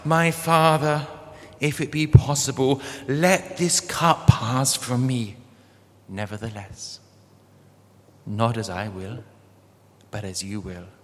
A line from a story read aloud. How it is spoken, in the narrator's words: He cried out